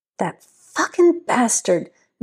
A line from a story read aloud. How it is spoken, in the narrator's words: Vivian hissed